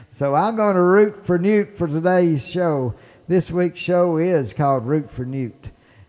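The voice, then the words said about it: Mississippi Southern accent. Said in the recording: “my Mississippi accent”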